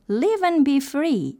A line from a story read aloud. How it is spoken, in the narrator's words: cried